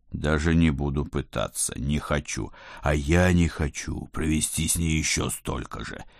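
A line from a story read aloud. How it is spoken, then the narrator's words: Heavy groan, old man. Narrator (Russian): тяжело простонал дед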